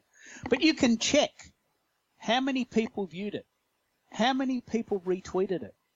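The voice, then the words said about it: Broad Australian accent. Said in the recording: “your broad, raucous Aussie accent.”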